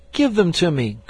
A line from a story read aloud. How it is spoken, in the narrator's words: cried Ernest